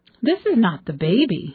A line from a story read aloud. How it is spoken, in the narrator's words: exclaimed in startled tones